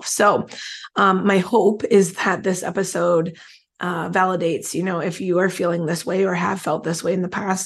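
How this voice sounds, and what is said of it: Strained, struggling voice. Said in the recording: “as you can, I'm sure, tell with my voice is struggling”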